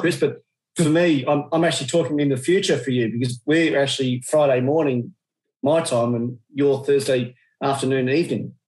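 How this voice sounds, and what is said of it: Australian accent. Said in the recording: “excuse my Australian accent ... that Australian accent”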